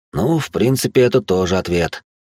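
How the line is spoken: Aroused sigh. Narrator (Russian): вздохнул я, впадая в пучину похоти и разврата

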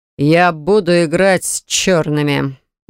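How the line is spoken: Grim, ominous. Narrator (Russian): мрачно и многообещающе произносит Суворов-старший

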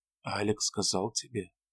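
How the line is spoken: Even, low voice. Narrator (Russian): спросила она своим ровным, низким голосом

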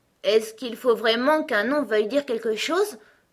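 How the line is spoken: Doubtful question. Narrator (French): demanda Alice d'un ton de doute

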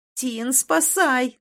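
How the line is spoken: Silent inner cry. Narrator (Russian): закричала про себя

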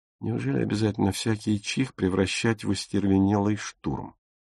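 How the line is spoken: Whisper. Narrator (Russian): прошептал Зильке

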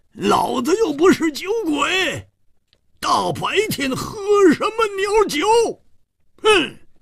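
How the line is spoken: Angry roar. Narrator (Chinese): 胡铁花更是满肚子的怨气没处发，大声地吼叫着

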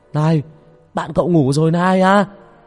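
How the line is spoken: Shouted. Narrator (Vietnamese): Ông Sân hét lên

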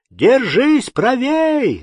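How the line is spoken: Old fisherman shouting. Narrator (Russian): закричал седой рыбак

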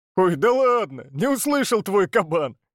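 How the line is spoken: Chuckling, challenging. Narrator (Russian): Олег хохотнул

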